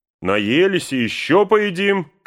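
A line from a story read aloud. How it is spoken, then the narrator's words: Shouted. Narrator (Russian): крикнул Пин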